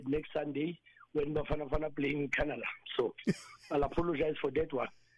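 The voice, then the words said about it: Husky, worn-out voice. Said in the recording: “My voice is gone, so I have a husky voice now.”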